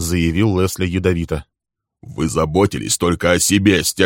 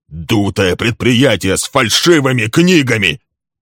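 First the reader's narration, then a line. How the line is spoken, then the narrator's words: Shouting. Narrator (Russian): кричал Лесли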